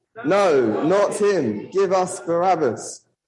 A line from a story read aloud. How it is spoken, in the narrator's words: They shouted back